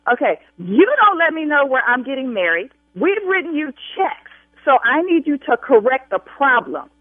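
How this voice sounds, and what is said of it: Raised, angry yelling voice. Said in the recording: “I will continue to raise my voice ... you're yelling at me?”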